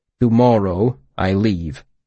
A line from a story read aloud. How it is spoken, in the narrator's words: he said